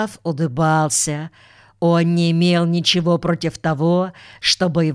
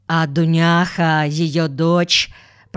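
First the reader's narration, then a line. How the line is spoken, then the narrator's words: Flat, impassive voice. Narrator (Russian): продолжал Макарьев бесстрастным голосом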